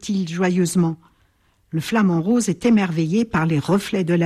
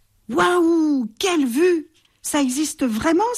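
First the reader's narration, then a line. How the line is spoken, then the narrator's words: Excited bat exclaiming. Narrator (French): s'écrie la chauve-souris excitée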